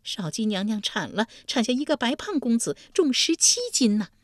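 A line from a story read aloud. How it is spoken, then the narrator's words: Breathless, panting. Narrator (Chinese): 患者气喘吁吁道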